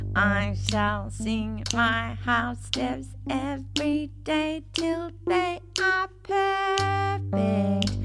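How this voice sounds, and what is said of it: Twangy singing voice. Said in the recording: “Give me some twang.”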